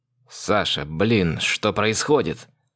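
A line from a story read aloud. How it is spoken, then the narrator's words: Hiss. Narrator (Russian): Прошипел Соломон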